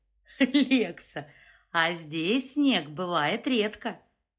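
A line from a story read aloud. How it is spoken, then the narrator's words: Loud laugh, big man. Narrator (Russian): Громко рассмеялся гора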